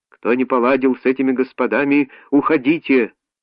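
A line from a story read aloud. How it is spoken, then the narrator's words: Shout. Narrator (Russian): он крикнул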